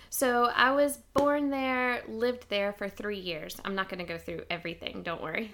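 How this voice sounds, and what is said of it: Southern US accent. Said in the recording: “if you can't tell from my accent, I was born in the South in the United States”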